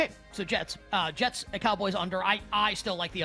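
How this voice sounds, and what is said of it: Usual voice. Nothing is said of it.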